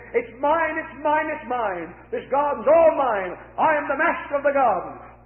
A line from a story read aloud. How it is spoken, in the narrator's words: shouted